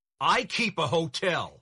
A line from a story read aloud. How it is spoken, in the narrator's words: he shouted